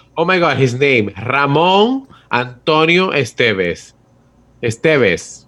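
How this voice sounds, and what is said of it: Convincing put-on accent on name. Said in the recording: “That accent that you just threw on there was amazing.”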